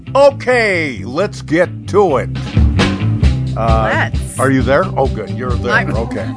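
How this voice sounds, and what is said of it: Loud, peppy, almost yelling. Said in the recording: “You got all loud and... Why are you yelling? ... I should be more peppy”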